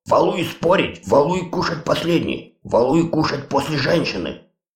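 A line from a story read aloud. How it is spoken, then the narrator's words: Angry giant's growl. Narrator (Russian): Гигант зло зарычал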